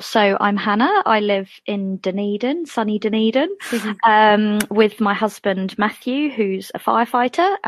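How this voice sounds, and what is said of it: English accent. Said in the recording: “as the accent suggests, I'm from England ... the accent's still going strong”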